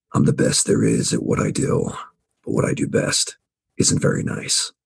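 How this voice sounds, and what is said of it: Gruff Wolverine character voice. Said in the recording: “give me your best Wolverine voice? ... My best Wolverine voice”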